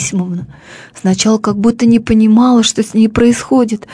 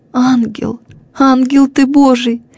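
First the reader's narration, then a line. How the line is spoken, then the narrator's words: Crying out through sobs. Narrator (Russian): вскрикнула она сквозь потрясавшие ее рыдания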